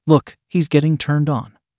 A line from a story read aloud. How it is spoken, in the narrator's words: she said